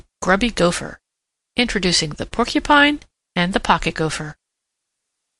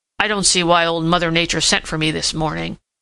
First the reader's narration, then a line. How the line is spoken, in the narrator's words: he grumbled